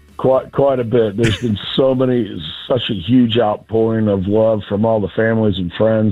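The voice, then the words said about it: Hoarse, nearly lost voice. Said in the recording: “Still a little hungover. I've lost my voice”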